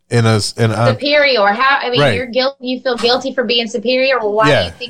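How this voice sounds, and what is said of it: Thick Mississippi accent. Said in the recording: “about as thick as my accent. ... man, she's got an accent. And it's different from Eddie's. ... I'm from Mississippi.”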